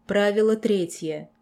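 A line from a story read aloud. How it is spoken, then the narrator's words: Growl. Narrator (Russian): прорычал сэр Сонхейд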